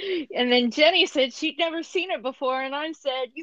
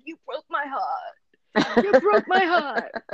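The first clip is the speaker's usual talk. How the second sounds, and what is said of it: Imitates another person's voice. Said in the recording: “I did my Al Pacino voice ... that's current day Al Pacino and not 1970s ... Godfather 2 Al Pacino”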